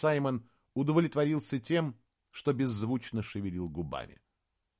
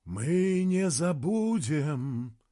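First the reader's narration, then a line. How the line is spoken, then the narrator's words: Singsong chanting. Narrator (Russian): нараспев заговорил Реннесин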